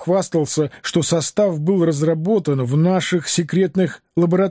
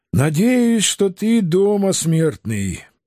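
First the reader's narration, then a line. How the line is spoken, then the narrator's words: Uncertain sigh. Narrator (Russian): Неуверенно вздохнул я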